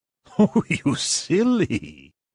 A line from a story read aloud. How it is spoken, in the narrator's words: laughed